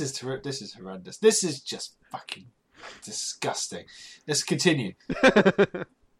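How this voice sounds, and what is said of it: Usual voice. Nothing is said of it.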